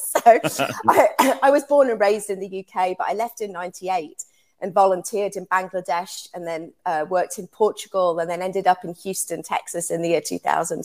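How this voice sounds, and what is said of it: English accent. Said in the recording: “I can hear that you're not from America originally ... the accent is from England ... I've retained this accent somehow”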